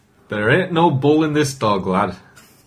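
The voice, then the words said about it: Attempted northern English accent. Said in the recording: “I can't do a Manchester accent ... Not bad, not bad ... Or is that more Yorkshire? Sorry, Leeds, yeah, which is in Yorkshire”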